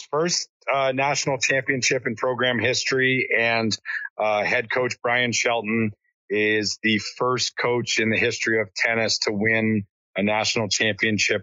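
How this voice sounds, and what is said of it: Slightly hoarse voice. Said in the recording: “I've lost my voice a little bit ... hooting and hollering ... my voice is a little hoarse”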